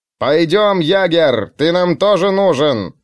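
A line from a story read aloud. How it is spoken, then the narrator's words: Shouted. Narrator (Russian): прокричал князь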